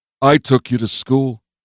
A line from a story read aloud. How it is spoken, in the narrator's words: Mike said